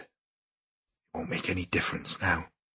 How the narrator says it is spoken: she whispered

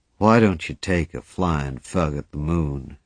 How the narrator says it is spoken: he said kindly

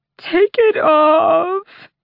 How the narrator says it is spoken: The sobs ebbed, tricking into something broken and raw

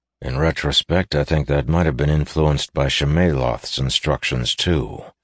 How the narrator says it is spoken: he added grimly

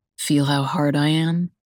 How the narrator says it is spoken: He groans softly

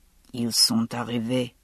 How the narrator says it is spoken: Ishmael said quietly

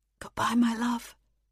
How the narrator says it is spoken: he whispered

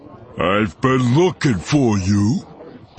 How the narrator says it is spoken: the burly man snarled

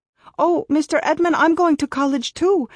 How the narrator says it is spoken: I cried

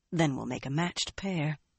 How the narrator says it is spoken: she muttered to herself

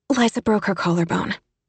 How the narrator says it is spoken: Emmy blurted out

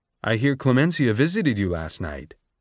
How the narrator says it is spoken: he said cheerfully

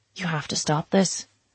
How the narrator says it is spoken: she used to say, more softly than she ever spoke when he was sober

